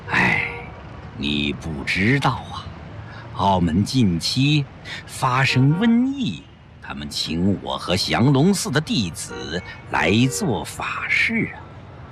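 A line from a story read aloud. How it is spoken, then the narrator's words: Sighing. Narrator (Chinese): 宽灵法师叹了口气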